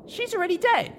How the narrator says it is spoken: exclaimed in surprise

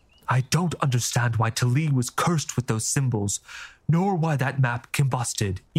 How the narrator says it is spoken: Ifair said grimly

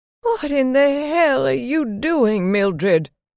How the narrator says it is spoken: she screamed

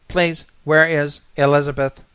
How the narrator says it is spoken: hummed anxiously

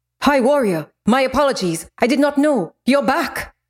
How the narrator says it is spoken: he barked to the guards inside

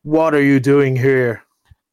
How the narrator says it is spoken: he cried in his very gruff voice

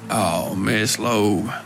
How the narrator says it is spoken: he grumbled

